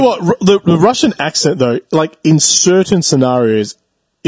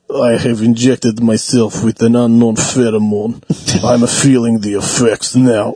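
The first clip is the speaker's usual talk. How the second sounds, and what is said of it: Russian-accented mad scientist voice. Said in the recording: “the Russian accent, though, like in certain scenarios, you just can't beat it. ... Like the mad scientist thing. ... the voice actor”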